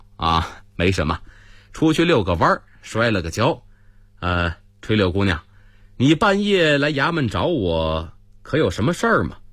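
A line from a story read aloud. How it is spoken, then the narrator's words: Embarrassed laugh. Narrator (Chinese): 狄仁杰不好意思地笑了笑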